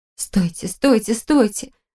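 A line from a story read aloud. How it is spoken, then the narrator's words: Desperate whisper. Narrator (Russian): в отчаянии зашептала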